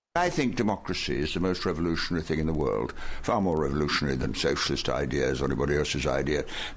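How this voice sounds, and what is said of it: British English accent. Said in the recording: “So this is a British man. ... you'll know by the accent”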